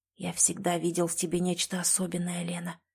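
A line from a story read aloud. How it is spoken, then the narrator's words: Whispered. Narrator (Russian): прошептал он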